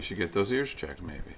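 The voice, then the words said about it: Deadpan, flat joking delivery. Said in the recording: “It's the deadpan ... delivery.”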